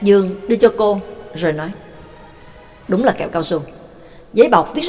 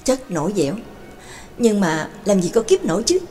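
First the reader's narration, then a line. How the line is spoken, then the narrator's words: Soft exhaled sigh. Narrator (Vietnamese): Đường Mẫn bất giác khẽ thở hắt ra một hơi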